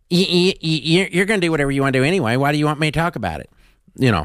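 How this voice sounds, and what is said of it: Imitates another person's voice. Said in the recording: “That was a pretty good impression.”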